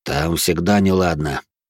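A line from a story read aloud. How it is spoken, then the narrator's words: Grumbling. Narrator (Russian): проворчал Эрик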